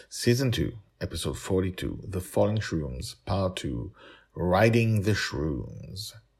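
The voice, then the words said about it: Speaks with a strong accent. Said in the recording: “the author with a bad accent”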